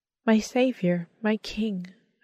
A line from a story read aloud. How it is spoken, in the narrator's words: whispered